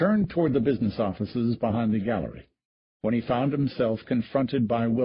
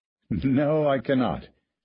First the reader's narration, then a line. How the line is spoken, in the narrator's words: said Stratton, chuckling